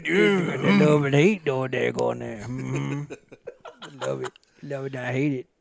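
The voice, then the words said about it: Mumbling Cajun accent, lockjawed. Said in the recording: “it's the mumbling. It's the mumbling Cajun. ... Your accent has gotten like... ... It's gotten worse. ... you've gotten more and more lockjaw as it's gone on.”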